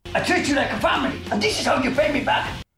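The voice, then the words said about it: Unclear, hard-to-place put-on accent. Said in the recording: “I'm very confused on what this accent is supposed to be.”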